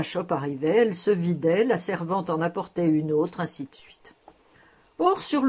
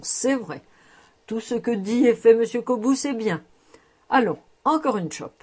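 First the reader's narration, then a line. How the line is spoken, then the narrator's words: Laughing exclamation. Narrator (French): s'écriait alors Christel en riant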